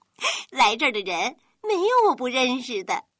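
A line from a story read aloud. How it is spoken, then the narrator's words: Girl, smiling. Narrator (Chinese): 女孩也笑了一下说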